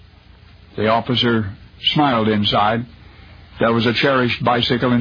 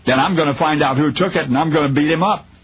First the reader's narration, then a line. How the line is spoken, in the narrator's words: the child blurted through angry tears